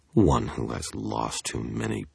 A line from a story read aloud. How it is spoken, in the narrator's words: I grumbled, frustrated, mocking her beneath my breath